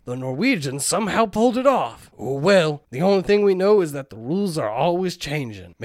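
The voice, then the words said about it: Rough put-on Southern accent. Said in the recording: “the like grizzled war veteran you started with, as you just slide into a rough southern ... accent”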